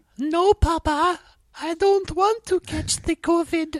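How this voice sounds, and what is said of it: Convincing put-on Mexican accent. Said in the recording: “The best Mexican accent I've ever heard ... It was spot on ... You're nailing these accents ... you could tell definitely that was from Mexico”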